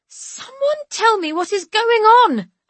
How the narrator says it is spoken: I want to scream

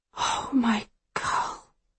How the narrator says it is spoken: she whispers

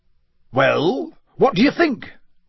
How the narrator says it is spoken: said Bagman happily

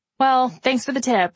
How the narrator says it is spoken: I said

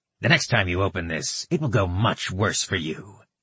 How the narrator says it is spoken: he said coldly

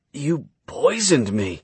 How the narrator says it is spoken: he grunted

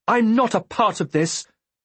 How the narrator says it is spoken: I shouted hopelessly

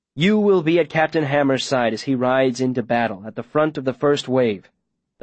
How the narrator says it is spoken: the mayor says

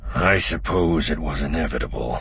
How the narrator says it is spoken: he murmured

